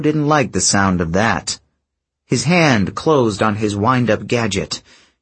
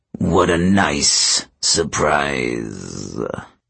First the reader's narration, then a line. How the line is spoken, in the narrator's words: the giant rumbled